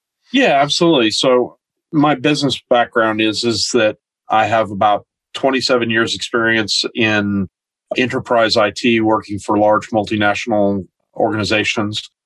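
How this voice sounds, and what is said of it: American accent. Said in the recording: “that doesn't sound like a New Zealand accent... I'm originally from the United States”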